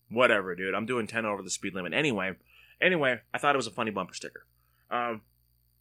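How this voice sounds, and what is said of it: Usual voice. Nothing is said of it.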